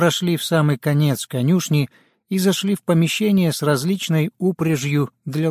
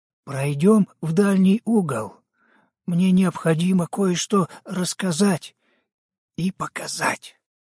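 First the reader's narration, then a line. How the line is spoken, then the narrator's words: Even quieter voice. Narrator (Russian): Еще более тихим голосом добавил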